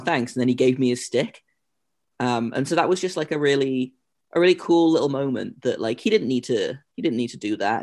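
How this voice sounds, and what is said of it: English accent. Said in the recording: “obviously the accent and stuff ... how does someone from England”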